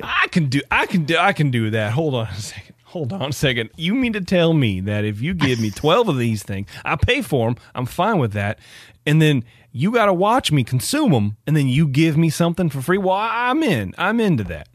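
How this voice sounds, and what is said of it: Well-honed Skokie, Illinois accent. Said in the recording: “Your Skokie accent's wonderful. Yeah, well honed.”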